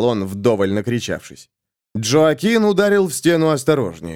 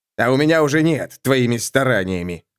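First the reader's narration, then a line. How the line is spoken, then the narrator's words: Angry creaky voice. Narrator (Russian): зло проскрипел агент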